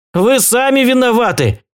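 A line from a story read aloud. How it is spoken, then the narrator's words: Shouting in reply. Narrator (Russian): кричал я в ответ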